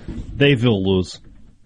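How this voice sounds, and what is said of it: Put-on Russian accent. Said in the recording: “your Russian accent there? ... That was more Ivan Drago.”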